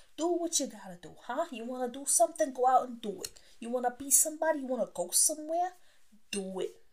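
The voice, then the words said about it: Put-on heavy Italian accent. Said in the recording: “I'm going to put on my Italian accent for you... talking in Italian... they got the heavy accent”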